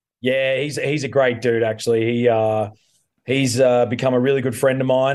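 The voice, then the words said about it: Australian accent. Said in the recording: “having a kind of familiar accent ... Two Aussies”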